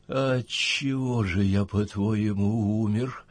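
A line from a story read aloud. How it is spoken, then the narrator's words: Barely audible rustle, dead man. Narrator (Russian): прошелестел мертвец, едва слышно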